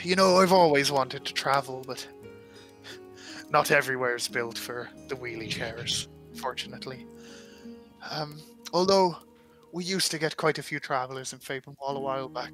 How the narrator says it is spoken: sighs and he goes

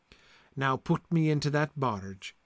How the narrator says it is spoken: sighed the king

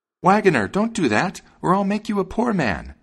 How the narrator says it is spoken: the sparrow cried out

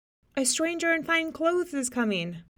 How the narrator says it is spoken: someone shouted

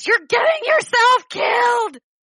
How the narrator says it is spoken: she'd just kind of yell after Thoras

